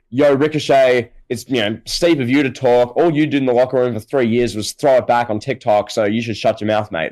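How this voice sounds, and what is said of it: Weak put-on Canadian accent. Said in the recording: “in a Canadian accent, which I can't even do”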